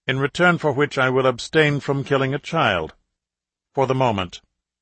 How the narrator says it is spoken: the voice added coldly

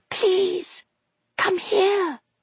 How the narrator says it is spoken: she whispered

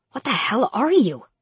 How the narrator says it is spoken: I hissed

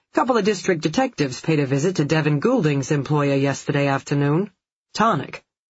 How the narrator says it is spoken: Phil uttered the words dryly

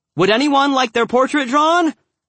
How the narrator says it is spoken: I called out, nice and clear

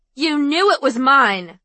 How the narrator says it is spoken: Ivy yelled

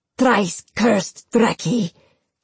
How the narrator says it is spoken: Samara spat

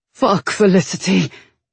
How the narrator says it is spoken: he groaned

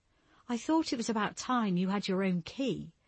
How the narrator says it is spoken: Julia said, her voice shaking with nerves

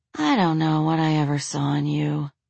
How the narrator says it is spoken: she breathed

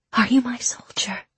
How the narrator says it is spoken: she whispered

